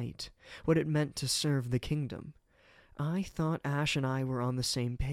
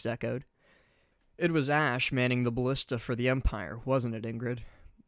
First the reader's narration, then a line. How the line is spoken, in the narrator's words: Byleth said flatly